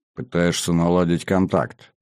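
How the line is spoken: Inner smirking thought. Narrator (Russian): мысленно хмыкнул Кобрин

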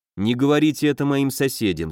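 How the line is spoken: Plain. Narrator (Russian): сказал он

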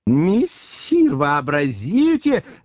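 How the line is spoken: Excited joyful shout. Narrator (Russian): закричал возбужденный радостно Бегемот

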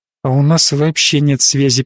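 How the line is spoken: Sad inner thought. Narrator (Russian): печально подумала Корделия

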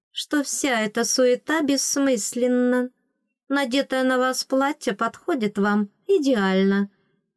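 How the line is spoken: Sweet voice, lady-in-waiting. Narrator (Russian): сладким голосом заявила темноволосая фрейлина

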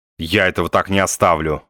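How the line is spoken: Grumbling. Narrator (Russian): ворчал Остап

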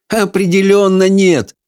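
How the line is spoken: Laughing. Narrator (Russian): рассмеялся Майкл

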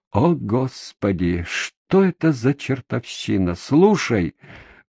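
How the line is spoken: Tired. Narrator (Russian): проговорил я устало

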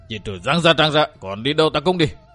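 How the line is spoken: Growling. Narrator (Vietnamese): Thành Cương gầm gừ

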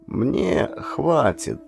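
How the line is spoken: Soft, old woman. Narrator (Russian): мягко произнесла сгорбленная старушка

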